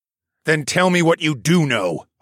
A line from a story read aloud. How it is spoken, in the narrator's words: I growled